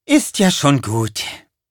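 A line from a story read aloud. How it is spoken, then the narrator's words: Sighing. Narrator (German): seufzte sie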